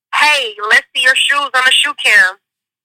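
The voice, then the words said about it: Southern US accent, Memphis. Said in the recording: “your accent is amazing. ... I'm from Memphis, Tennessee.”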